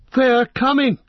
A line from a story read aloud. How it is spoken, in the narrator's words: cried Legolas